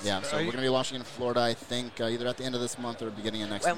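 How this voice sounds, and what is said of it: East Coast American accent. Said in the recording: “you have an East Coast accent ... You say Florida too?”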